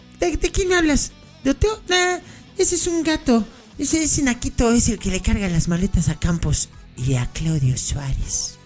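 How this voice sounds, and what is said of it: Impression of Cuauhtémoc Blanco. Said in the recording (Spanish): “imitación de Cuau”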